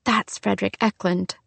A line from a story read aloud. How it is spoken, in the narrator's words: whispered the realtor